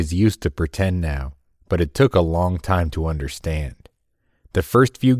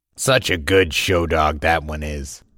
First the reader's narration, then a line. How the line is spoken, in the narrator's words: chuckled